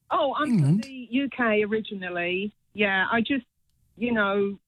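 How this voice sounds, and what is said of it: British accent. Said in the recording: “Love your accent, by the way. ... I would love to have a British accent like that.”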